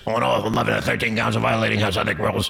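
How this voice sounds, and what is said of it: Imitated voice dropping deep and gravelly. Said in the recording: “he goes like this ... going way up and then going gravelly ... goes right into that deeper”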